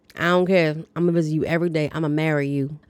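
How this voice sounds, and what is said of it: Attempted Southern accent. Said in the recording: “that's my attempting to be Southern accent ... I don't have the South twang”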